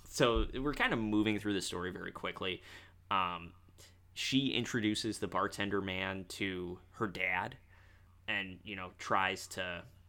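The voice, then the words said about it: Midwestern American accent. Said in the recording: “been in the Midwest too long ... make fun of my accent”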